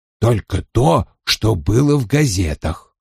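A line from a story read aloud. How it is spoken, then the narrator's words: Mutter. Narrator (Russian): пробормотал Вульф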